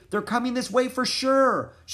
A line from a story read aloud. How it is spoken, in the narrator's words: shouted Annie